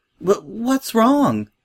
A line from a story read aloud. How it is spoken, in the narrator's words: said Sweetie Belle anxiously